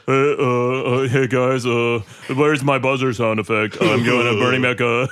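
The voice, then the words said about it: Imitates another person's voice. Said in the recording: “let's all do the rest of this episode with Austin impressions ... that sounds like a Ninja Turtle ... You guys are doing impressions of me”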